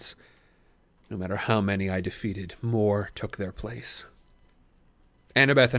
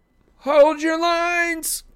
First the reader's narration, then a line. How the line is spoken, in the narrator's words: Katie Gardner shouted somewhere off to my left